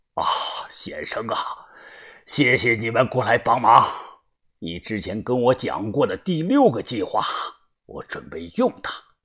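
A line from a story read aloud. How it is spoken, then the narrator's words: Hoarse voice. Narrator (Chinese): 他声音沙哑的说道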